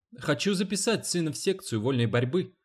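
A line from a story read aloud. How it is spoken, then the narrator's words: Quick. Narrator (Russian): быстро сказала Дженни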